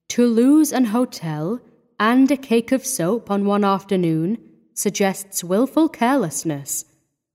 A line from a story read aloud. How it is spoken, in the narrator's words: said Gortsby